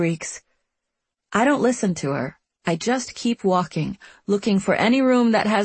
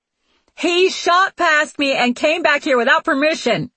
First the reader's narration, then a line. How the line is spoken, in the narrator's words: the guard yells, her voice reverberating down the hall